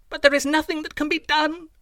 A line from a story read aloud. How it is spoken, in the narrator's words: I cried